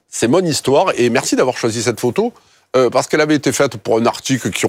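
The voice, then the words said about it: Strong southern French accent. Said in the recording (French): “mon authenticité s'entend toujours, pique un peu les yeux, mon accent, c'est un peu l'ail. Mais en fait, c'est d'où je viens”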